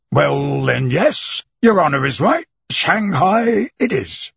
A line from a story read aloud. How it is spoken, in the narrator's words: he exclaimed